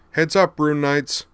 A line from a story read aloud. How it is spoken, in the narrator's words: Hikaru cried